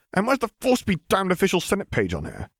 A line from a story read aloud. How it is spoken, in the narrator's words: He muttered